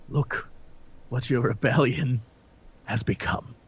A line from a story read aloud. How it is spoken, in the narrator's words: whisper into her ear